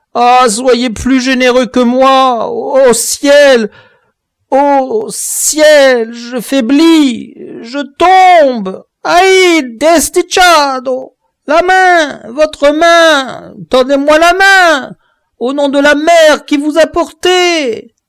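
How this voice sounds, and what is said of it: Lamenting, terrified, suffering plea. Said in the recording (French): “lamentable cet accent de terreur et de souffrance”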